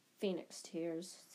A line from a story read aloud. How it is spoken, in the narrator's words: said Riddle quietly